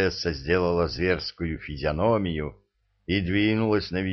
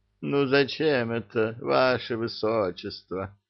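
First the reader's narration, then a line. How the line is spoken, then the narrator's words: Moaning. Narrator (Russian): простонал Гасан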